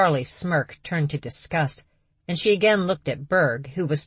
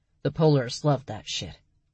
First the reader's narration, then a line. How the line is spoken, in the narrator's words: Berg muttered